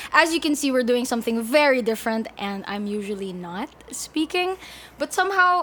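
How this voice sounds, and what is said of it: Usual voice. Nothing is said of it.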